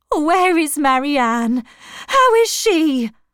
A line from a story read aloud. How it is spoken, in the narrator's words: her mother cried